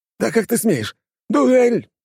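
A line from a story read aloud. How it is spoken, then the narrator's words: Yelled. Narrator (Russian): завопил он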